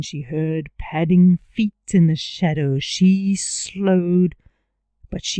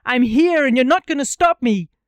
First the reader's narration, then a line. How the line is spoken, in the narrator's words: She breathed, she hummed, she yelled into the dark